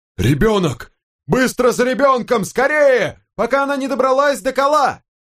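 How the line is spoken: Yelling. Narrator (Russian): Дофер орал

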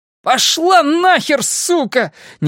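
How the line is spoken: Sudden shout. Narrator (Russian): неожиданно крикнул он

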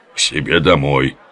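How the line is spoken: Deep bass reply. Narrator (Russian): басом ответствовала ханум

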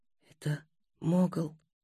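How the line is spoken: Whispering. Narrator (Russian): прошептал Будимир

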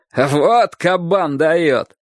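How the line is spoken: Laughing adults shouting. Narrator (Russian): многие взрослые смеялись его выходки и кричали

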